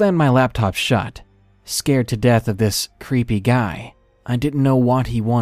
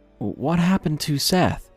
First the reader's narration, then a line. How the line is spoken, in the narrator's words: mumbling